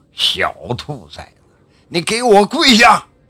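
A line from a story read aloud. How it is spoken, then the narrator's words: Furious roar. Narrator (Chinese): 洪老七是火冒三丈，怒喝道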